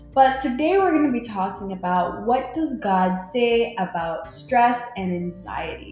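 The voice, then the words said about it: Slightly odd, sick-sounding voice. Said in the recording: “you'll probably hear a little bit of a weird voice, and it's because I'm a bit sick”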